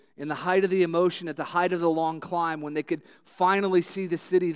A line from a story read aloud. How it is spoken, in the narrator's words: they shouted